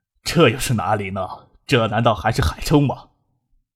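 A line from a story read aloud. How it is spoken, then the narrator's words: Slightly mocking. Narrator (Chinese): 周富明微微讥笑着说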